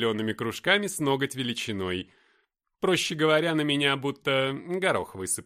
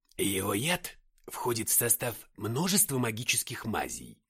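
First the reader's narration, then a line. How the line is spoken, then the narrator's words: Low-voiced explanation. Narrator (Russian): вполголоса пояснил Иссельмарон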